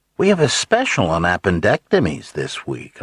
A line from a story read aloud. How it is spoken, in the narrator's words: called happily